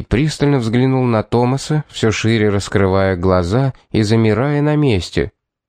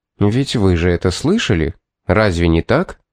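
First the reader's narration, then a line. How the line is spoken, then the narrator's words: Calm question. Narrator (Russian): спокойно спросил Пит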